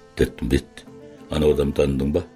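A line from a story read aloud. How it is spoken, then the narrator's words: Quiet. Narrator (Kazakh): деді Жаңбырбай ақырын ғана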